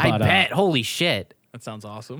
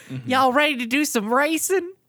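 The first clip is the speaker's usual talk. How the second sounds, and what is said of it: Exaggerated put-on Texan accent. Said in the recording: “has like the most typical Texan accent you've ever fucking heard”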